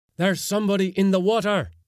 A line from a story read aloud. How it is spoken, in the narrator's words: roared